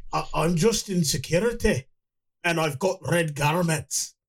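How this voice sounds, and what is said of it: Bad put-on Scottish accent. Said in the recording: “a horrible Scottish accent ... That's awful ... His horrific Scottish accent”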